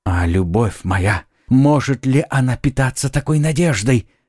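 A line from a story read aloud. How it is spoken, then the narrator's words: Ecstatic young man exclaiming. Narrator (Russian): в порыве восторга воскликнул юноша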